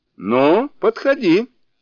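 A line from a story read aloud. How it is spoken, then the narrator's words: Demon shouting. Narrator (Russian): закричал демон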